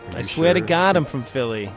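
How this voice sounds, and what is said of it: Put-on Philadelphia accent. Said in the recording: “you're supposedly from Philadelphia ... I never heard you put on the accent ... Oh, there it is.”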